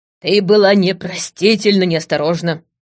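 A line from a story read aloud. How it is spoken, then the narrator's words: Barking old man. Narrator (Russian): рявкнул дед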